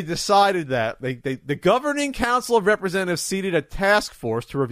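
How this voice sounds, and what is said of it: Usual voice. Nothing is said of it.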